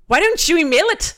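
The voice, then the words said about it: Put-on accent. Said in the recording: “I'm going to do it with my mom and say it in an accent.”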